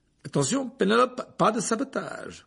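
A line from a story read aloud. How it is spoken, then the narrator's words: Amused tone. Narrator (French): dit Percy d'un ton amusé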